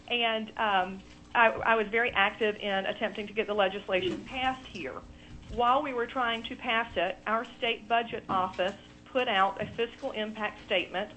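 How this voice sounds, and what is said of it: Southern US accent. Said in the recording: “I'm from South Carolina. You can probably hear my accent.”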